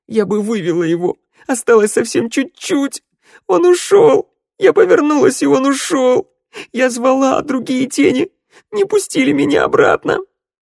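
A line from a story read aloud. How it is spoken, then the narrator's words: Shriek breaking into wailing sobs. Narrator (Russian): Санда сорвалась на визг, а потом разразилась рыданиями, причитая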